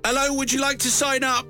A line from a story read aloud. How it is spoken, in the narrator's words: says John, shouting